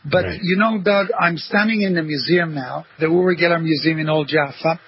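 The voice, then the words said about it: Israeli accent mixed with American, English. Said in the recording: “I'm an Israeli. So I have this Israeli accent, and I lived in America for 10 years and in England for 35 years. So it's kind of a mixture.”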